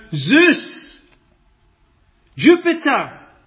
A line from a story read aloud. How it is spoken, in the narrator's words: He didn't shout